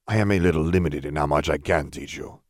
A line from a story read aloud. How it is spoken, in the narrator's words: Salazar murmured